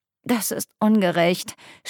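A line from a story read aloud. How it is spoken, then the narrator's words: Moaning. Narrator (German): stöhnte ich, als er meine Brüste massierte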